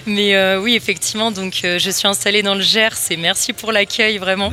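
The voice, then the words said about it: Regional French accent from elsewhere. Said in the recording (French): “mon accent me trahit, effectivement, je viens d'une autre campagne à la base.”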